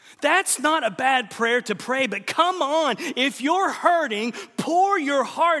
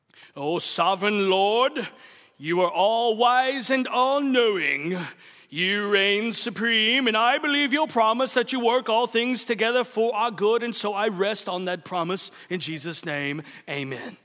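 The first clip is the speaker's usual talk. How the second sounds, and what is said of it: Pompous, affected prayer voice. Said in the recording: “without the little pompous accent”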